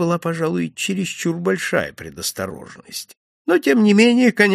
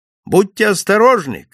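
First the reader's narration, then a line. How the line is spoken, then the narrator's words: Shouting after someone. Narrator (Russian): крикнул мне вдогонку Дольчепиано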